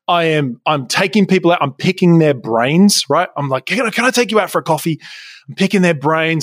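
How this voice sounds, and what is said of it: Australian accent. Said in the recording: “the sexy Australian accent”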